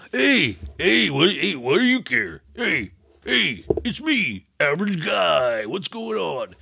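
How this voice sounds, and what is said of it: Imitation of a generic male voice. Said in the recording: “that's my impression of a standard male.”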